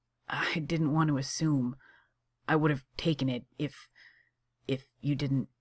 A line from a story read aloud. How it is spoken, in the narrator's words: Johnny groans